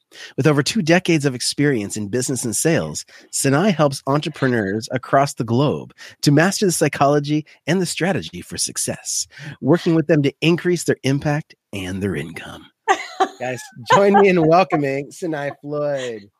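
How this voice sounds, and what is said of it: Announcer-style radio voice. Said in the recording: “my radio voice.”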